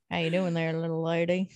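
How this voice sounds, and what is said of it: Put-on cowboy accent. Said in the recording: “I can do a cowboy accent.”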